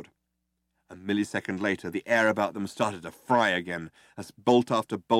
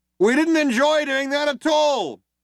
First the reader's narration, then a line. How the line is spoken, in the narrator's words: shouted the other cop